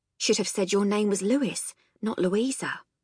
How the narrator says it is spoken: she said quietly

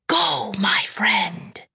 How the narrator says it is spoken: whispers

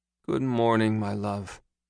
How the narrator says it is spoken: moaned through her early morning exhaustion

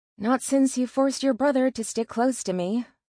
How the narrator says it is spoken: said with a sigh

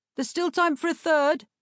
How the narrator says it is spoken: someone shouted

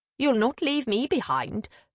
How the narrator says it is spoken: Maeve said sharply

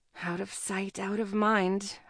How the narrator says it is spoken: I mumble

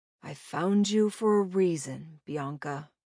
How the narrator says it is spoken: he whispered

